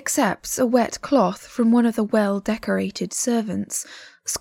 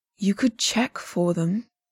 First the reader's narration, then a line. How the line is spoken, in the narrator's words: Liu Qingge says dryly